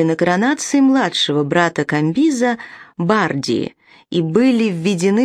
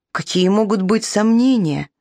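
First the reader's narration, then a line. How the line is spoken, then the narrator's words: Sighing. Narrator (Russian): вздохнул Виндафарна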